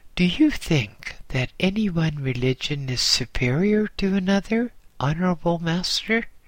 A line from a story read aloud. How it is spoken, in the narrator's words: I asked rather timidly